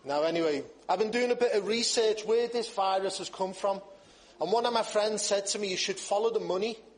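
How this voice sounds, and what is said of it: Speaks with an unfamiliar accent. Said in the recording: “that fellow with the strange accent”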